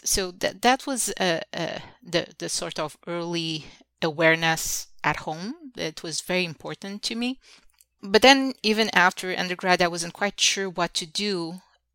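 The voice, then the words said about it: Slight Portuguese accent. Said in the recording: “back in Portugal, where I'm originally from, as you can tell, I do have a slight accent”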